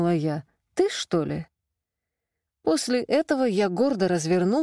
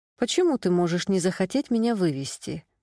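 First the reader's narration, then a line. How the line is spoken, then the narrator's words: Plain. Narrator (Russian): спросила я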